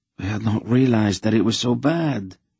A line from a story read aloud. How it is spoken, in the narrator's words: Lalderan replied in a subdued voice